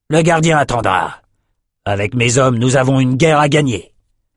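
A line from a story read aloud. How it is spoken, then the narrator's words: Growling. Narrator (French): grogna Outros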